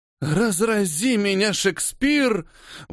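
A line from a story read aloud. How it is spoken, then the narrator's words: Blissful breathy exhale. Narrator (Russian): выдохнула Елена Горячая, прикрыв от неги глаза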